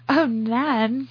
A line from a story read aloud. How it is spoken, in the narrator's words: Cora said, giggling